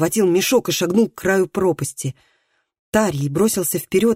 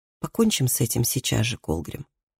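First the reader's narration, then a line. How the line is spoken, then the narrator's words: Quiet. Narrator (Russian): тихо сказал Тарий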